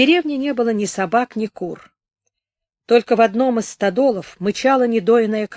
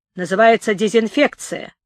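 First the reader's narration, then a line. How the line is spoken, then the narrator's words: Mocking, after a pause. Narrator (Russian): насмешливо добавил он, помолчав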